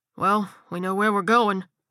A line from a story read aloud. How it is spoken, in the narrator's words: Colby grunted